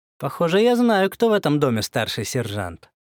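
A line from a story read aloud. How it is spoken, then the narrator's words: Snide. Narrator (Russian): ехидно произнес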